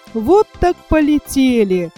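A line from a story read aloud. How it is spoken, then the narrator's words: Laughing. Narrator (Russian): засмеялся Микроша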